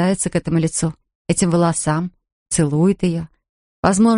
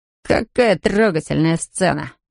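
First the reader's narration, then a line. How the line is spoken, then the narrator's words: Mocking, amused. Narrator (Russian): насмешливо улыбнулся Джей Ди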